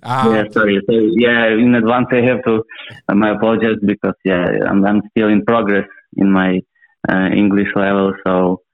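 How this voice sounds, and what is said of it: Ukrainian-accented English. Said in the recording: “You've got an accent. ... I'm from Ukraine.”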